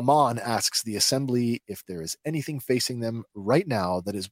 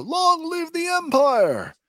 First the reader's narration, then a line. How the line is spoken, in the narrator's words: a voice can be heard shouting